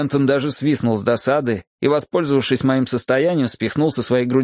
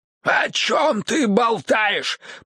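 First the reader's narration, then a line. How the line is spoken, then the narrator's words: Hoarse. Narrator (Russian): прохрипел он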